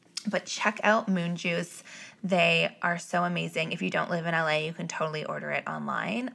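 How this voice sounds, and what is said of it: Sore, strained voice. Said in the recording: “clearly my voice is hurting”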